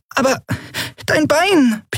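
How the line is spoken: Squeaky little voice. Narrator (German): piepste Nelen

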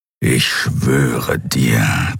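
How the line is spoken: Warrior growling. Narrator (German): knurrte das Krieger

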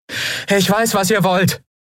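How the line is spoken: Shouting into the woods. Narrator (German): rief Endriel in den Wald hinein

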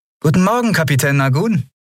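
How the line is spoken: Cheerful greeting. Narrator (German): Lien begrüßte sie fröhlich

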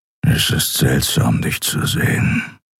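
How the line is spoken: Grumbled. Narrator (German): brummte er

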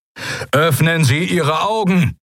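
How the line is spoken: Calling over broadcast. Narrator (German): rief Telios in den Kubus

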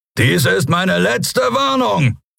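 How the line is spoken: Roar. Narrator (German): brüllte er

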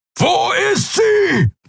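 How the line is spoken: Roaring shout. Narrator (German): brüllte

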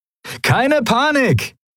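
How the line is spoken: Cheerful call. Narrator (German): rief Sephiron seinen Kumpanen in bester Laune zu

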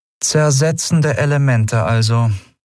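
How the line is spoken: Flat toneless voice. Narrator (German): sagte sie schließlich mit tonloser Stimme

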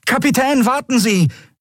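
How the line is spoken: Call. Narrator (German): rief er kurz darauf

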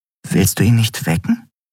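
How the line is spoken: Plain question. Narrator (German): fragte Nelen

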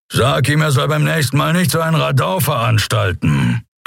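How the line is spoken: Unimpressed growl. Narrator (German): knurrte er unbeeindruckt

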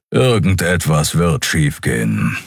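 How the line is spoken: Growling. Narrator (German): knurrte Keru

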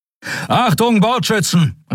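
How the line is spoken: Called out. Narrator (German): rief

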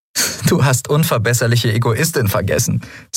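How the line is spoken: Said laughing. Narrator (German): sagte lachend

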